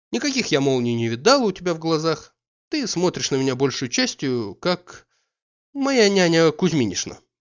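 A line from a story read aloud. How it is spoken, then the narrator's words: Added with a laugh. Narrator (Russian): прибавила она и засмеялась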